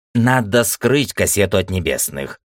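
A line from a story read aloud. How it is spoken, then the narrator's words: Calm old man. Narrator (Russian): спокойно ответил старик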